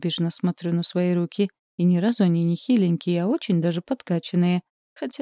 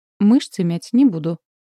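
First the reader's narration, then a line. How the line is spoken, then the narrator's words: Dry. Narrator (Russian): сухо говорю я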